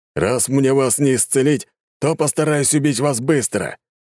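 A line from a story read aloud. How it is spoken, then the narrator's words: Booming. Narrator (Russian): прогремел он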